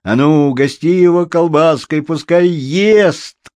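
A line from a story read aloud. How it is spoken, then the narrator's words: Group shouting. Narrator (Russian): кричали они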